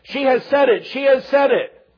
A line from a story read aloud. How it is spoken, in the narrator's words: cried